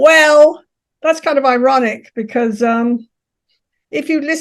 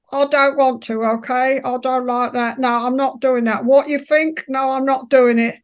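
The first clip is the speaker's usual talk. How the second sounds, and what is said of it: Working-class Cockney accent. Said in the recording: “I had a very working class Cockney accent. So you'd have heard me say”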